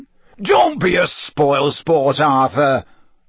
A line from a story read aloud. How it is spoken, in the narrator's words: boomed Ludo Bagman, rattling his pockets excitedly